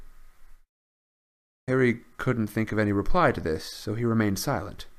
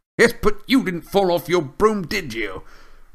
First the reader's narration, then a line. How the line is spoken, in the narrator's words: roared Amos genially